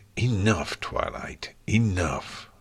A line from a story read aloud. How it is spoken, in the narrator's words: Nightmare Moon growled